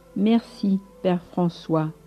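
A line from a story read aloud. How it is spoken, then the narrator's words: Plain. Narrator (French): dit celui-ci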